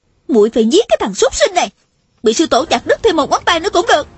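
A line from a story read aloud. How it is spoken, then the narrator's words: Enraged yelling. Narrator (Vietnamese): Tôn Trọng Quân lại càng tức tối la lên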